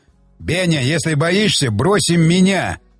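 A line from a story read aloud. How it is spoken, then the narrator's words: Yelling. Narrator (Russian): орал Щербатин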